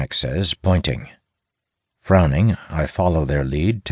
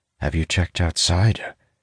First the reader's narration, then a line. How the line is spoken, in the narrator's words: Lowering my voice, I ask